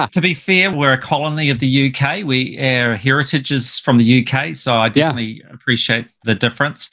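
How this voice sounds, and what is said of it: New Zealand accent. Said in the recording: “It's really cool to hear your accent... I'm actually in New Zealand”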